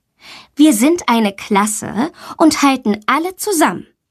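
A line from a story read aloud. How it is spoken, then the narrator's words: Plain. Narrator (German): sagt sie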